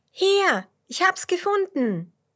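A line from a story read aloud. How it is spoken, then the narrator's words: Calling out. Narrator (German): ruft Dotti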